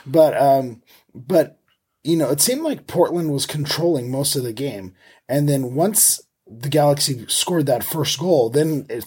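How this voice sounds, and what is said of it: Slightly hoarse voice. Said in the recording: “you could probably hear it in my voice, I was at the game, so I'm a little hoarse from yelling at the referee”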